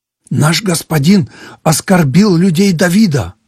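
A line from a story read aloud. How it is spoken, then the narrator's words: Agitated shepherd. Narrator (Russian): взволнованно говорил пастух Авигеи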